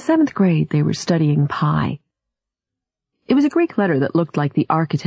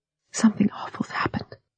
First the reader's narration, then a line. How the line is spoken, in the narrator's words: she whispered